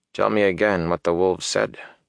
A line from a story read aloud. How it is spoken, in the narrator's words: Ingtar said softly